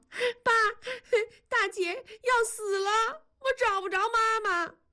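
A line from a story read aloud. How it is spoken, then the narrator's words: Crying child. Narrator (Chinese): 南方哭着说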